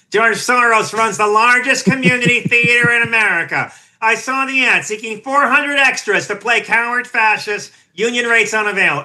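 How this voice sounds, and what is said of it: Nasal, throaty impression of another person. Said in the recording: “nice impersonation of Laura Ingraham doing Mark Levin ... I go so deep into that nasal laryngeal lock”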